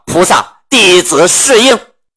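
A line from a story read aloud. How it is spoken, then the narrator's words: Flustered cry. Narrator (Chinese): 老孙一看是观音菩萨，慌的是倒身下拜，叫道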